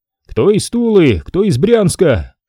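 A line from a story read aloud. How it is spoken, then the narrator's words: Shouting. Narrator (Russian): Кричали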